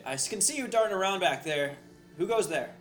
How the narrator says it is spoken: Ygritte will yell across, and she'll say

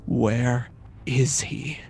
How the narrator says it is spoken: Icarus whispers with a grimaced voice

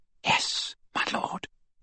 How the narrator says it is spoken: whispered Bellatrix, and her eyes swam with tears of gratitude again

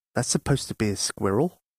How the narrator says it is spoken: muttered the outlaws, but they were too polite to say it out loud

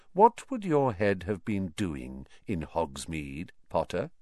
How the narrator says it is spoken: said Snape softly

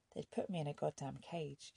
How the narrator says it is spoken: she said

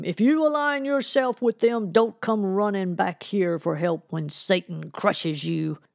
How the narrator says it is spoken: Reverend Madison shouted after Parker

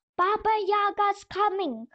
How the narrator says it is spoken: cried the little doll

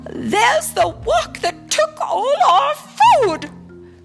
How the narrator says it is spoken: cried Mrs

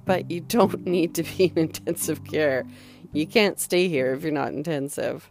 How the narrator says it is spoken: Brianne and the care aide sort of chuckled

